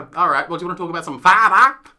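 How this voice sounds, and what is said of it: Playful put-on accent, not convincing. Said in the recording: “I said theatre, but with a fun accent. ... You need to work on the accent”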